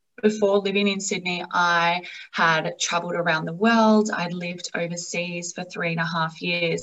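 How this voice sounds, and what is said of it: Australian accent. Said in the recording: “I am obviously from Australia. You would hear that from my accent.”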